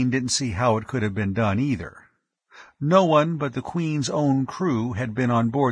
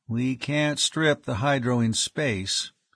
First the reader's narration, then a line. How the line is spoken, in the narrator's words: he pointed out the obvious, quietly